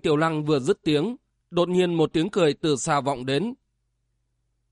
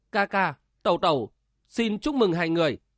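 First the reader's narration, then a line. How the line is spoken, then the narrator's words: Cheerful, elated. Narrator (Vietnamese): Đinh Tiểu Lăng hớn hở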